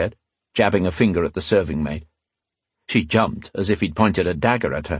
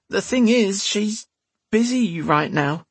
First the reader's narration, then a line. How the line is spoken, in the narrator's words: she said in a whiny voice